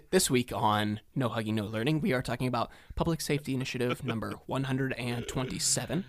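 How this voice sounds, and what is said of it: Public radio announcer voice. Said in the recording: “public radio voice”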